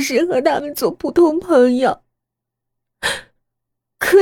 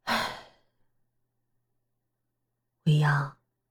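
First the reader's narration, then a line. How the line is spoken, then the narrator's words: Dazed sigh. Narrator (Chinese): 他怔怔的叹了口气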